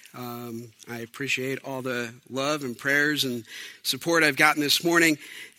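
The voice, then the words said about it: Voice sounds ill, under the weather. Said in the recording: “as you may hear in my voice, I'm a little bit under the weather”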